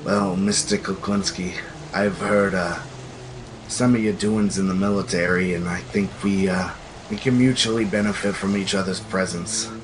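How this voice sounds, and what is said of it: Stereotypical mob boss voice. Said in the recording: “you're a stereotypical mob boss in a high fantasy world”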